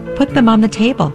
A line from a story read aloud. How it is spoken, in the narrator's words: I said, and my voice had a tremble in it